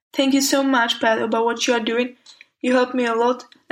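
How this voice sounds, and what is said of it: Speaker's own distinct accent. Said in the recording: “love your accent. It's beautiful.”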